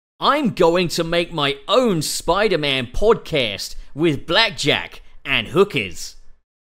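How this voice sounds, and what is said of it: Imitates another person's voice. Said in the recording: “I've got to do a pup voice”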